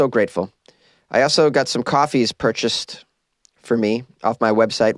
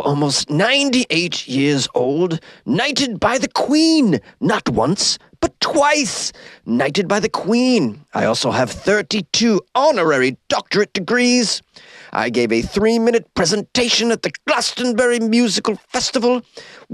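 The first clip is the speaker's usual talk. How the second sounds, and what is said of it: David Attenborough impression. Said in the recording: “I'm going to read it in the voice of David Attenborough.”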